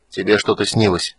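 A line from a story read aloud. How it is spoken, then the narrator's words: Gloomy reply. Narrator (Russian): мрачно ответил житель равнин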